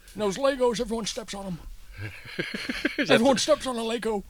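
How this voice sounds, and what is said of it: Old man character voice. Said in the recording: “That's a very good old man voice.”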